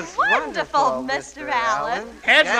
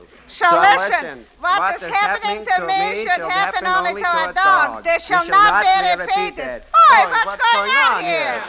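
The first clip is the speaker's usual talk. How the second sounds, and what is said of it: Comic put-on dialect. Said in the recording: “give ... a dialect sentence”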